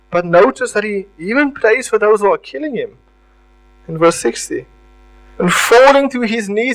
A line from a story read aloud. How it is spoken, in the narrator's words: he cries out with a loud voice